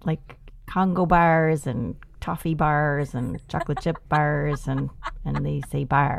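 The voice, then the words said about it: Minnesota accent. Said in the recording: “you definitely have your Minnesota accent.”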